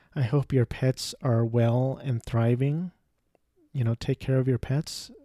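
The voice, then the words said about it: Flat monotone voice. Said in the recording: “my monotone voice”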